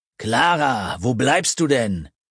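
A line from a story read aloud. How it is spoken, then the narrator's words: Called again, annoyed. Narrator (German): rief erneut genervt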